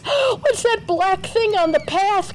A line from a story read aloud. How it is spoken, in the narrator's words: cried another boy, crawling on all fours